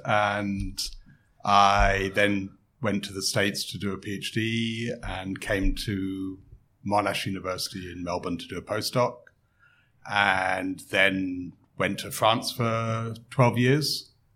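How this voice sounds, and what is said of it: English accent. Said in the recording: “as you can probably tell from my accent, I grew up in England”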